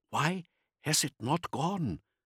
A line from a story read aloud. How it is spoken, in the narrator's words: Haas whispered